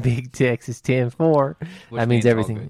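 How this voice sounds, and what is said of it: Put-on Texan accent. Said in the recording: “I don't know why I keep the accent when I say that ... because we're in Texas.”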